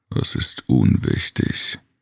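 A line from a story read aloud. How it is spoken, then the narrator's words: Grumbled. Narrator (German): brummte Jig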